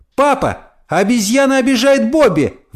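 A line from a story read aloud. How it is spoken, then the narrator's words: Exclaimed. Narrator (Russian): воскликнула Тина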